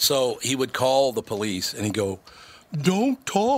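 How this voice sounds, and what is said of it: Usual voice. Nothing is said of it.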